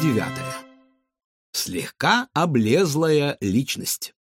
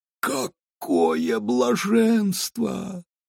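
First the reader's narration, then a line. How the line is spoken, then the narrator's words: Blissful moan. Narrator (Russian): от удовольствия стонал пудель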